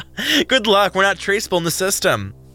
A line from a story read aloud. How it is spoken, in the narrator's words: Toe laughed